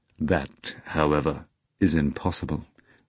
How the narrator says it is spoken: Volant said gravely

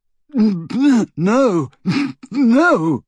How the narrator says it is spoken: he choked and retched

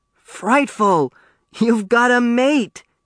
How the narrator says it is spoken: he exclaimed

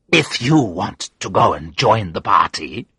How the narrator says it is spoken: she sneered, her cruel look back again

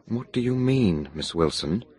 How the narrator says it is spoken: I asked quietly

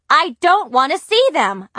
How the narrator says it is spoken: I shouted

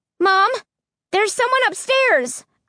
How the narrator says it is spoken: I cried

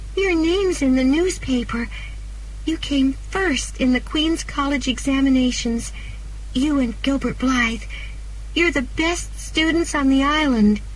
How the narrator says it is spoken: she cried excitedly

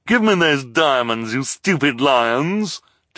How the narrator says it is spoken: Tony cried

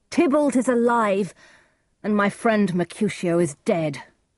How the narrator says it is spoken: cried Romeo

